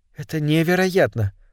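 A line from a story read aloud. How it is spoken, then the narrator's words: Whisper. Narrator (Russian): прошептала она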